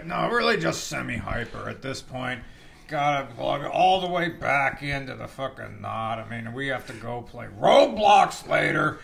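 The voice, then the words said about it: Put-on old man voice. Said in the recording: “doing the old man voice.”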